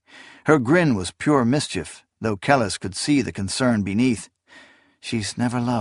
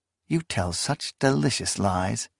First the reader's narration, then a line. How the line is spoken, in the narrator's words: she murmured